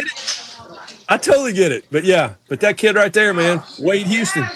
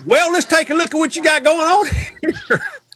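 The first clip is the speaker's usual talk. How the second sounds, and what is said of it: Put-on Southern accent. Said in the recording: “the Southern accent ... have a Southern accent”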